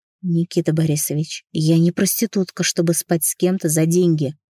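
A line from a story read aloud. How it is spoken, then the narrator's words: Defiant whisper. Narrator (Russian): воинственно, прошептала она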